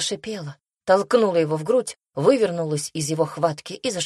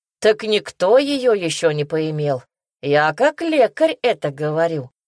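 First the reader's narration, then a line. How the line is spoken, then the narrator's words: Chuckling. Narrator (Russian): хохотнул кто-то в толпе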